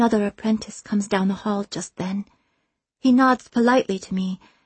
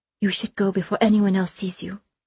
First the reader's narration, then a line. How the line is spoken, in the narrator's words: she says